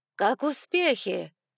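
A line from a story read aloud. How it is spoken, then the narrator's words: Loud question. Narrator (Russian): громко спросила миссис Мелисса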